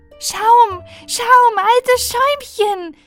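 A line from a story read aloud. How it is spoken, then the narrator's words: Called out. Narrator (German): rief sie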